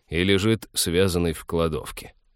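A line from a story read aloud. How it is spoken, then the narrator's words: Grumbling. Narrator (Russian): проворчал капитан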